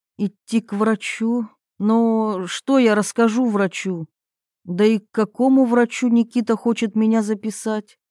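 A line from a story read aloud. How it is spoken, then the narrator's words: Sighing. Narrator (Russian): Ирина вздохнула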